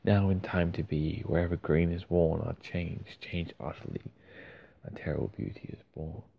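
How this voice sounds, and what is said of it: Australian accent. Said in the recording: “I'm Australian, not Irish, so it's not quite as amazing in an Aussie accent.”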